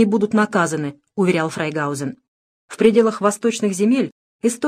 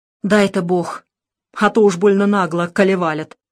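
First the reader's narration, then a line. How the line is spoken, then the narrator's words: Sighing priest. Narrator (Russian): вздохнул батюшка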